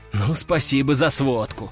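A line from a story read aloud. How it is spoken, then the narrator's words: Snort. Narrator (Russian): Хмыкнул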